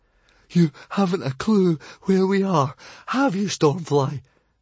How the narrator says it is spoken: panted Fishlegs

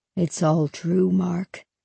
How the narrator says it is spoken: he said quietly

